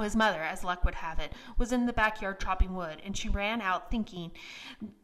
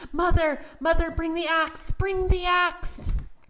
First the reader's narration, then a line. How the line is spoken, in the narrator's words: he shouted